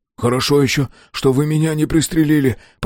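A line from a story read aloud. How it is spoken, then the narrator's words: Hoarse wheeze. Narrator (Russian): прохрипел он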